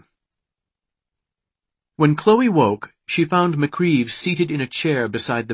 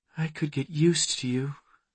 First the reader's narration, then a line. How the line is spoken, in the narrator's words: Just before she slipped into sleep, she murmured